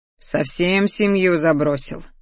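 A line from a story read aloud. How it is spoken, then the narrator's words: Grumbling. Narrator (Russian): заворчал он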